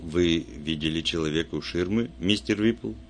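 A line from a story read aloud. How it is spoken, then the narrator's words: Soft. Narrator (Russian): Вульф мягко сказал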